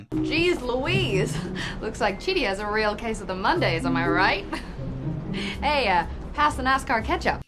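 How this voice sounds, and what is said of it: Pretty good Southern American accent. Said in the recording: “a pretty funny, pretty good American accent. I think it's really good. ... a kind of Southern American accent”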